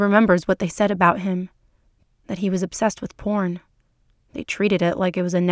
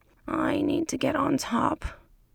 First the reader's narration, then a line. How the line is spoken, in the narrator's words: he moans